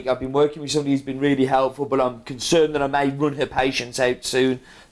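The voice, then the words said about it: Strong accent. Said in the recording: “my accent is quite strong. I do kind of know that. Sorry, maybe I should do subtitles.”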